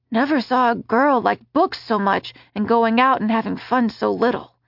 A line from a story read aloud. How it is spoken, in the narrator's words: muttered half to himself